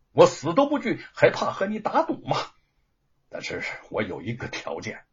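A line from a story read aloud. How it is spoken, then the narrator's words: Through gritted teeth. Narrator (Chinese): 吴承恩咬了咬牙说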